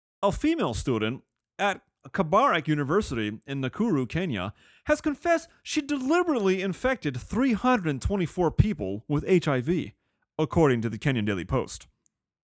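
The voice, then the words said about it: News reporter voice. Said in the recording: “put on my reporter voice”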